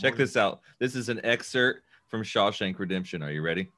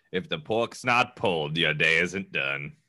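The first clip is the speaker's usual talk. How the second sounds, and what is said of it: Deep narrator-style actor impression. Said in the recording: “my Morgan Freeman impression”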